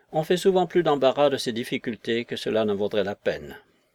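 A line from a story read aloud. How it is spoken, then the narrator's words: Indifferent tone. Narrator (French): dit Lydgate d'un ton indifférent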